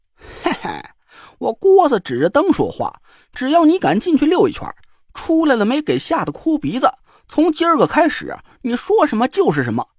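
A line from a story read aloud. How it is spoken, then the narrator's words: Sly snicker. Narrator (Chinese): 郭永哲坏笑一声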